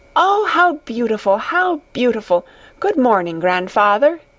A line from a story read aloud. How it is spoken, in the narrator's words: cried Heidi